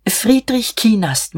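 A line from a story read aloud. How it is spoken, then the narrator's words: Murmuring. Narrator (German): murmelte er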